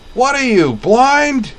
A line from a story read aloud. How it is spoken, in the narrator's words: Roy Chernov bellowed